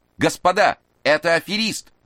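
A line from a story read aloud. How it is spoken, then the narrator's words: Loud yell. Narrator (Russian): громко заорал он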